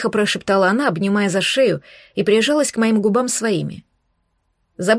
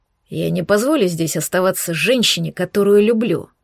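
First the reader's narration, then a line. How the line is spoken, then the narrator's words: Growled. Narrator (Russian): прорычал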